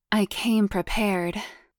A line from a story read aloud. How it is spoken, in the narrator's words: she purred